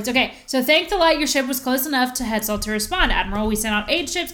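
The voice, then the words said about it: Teacherly reading voice. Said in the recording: “I will do it in my teacher voice”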